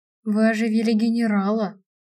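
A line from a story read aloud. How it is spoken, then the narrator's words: Reverent whisper. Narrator (Russian): благоговейно прошептал один из оживших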